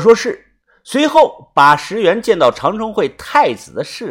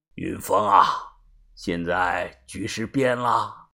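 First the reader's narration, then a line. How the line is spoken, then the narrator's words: Low voice on phone. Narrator (Chinese): 电话那头，把头啊，故意压低了声音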